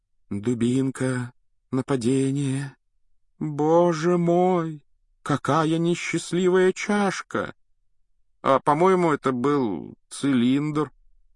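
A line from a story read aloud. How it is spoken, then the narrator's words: Uncertain drawl. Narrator (Russian): неуверенно протянул Рон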